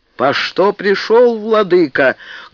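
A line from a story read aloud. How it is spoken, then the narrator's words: Menacing big man's question. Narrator (Russian): грозно спросил здоровенный мужик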